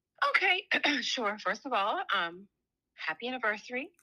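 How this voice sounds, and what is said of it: Polished radio broadcaster voice. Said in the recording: “I love her radio voice. I love her radio voice. ... You heard it turned right on. ... Get the broadcast voice.”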